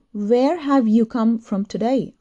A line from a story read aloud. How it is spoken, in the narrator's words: asked Shinichi